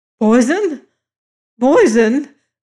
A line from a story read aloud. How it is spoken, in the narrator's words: cried O'Malley, his voice rising almost to a scream